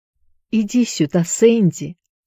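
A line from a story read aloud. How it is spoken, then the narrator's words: Quiet, weak call. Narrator (Russian): позвал его Джонни тихим слабым голосом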